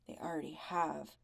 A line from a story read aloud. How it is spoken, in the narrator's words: Tom mutters